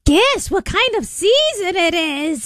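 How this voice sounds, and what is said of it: Witch character voice. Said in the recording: “It's my witch voice. Did you hear my witch voice?”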